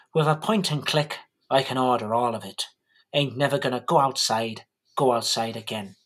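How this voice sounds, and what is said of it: Put-on accent while singing. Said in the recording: “I'm losing the accent”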